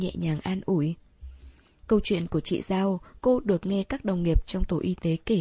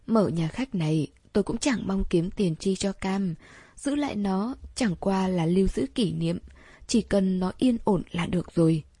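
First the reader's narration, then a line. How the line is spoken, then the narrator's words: Sighing, then continuing. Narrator (Vietnamese): chị ta thở dài, rồi lát sau nói tiếp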